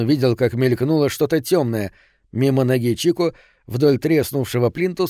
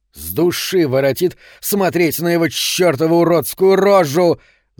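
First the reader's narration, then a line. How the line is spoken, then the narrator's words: Shouted. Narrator (Russian): закричал Соломон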